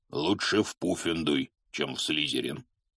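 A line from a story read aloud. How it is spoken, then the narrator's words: Even gloomier. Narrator (Russian): еще более мрачно ответил Хагрид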